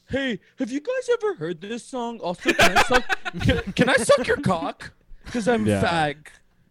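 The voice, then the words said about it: Imitates another person's voice. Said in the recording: “This is Max. ... That's pretty good. ... Most of the way there.”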